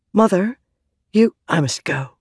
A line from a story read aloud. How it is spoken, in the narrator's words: she whispered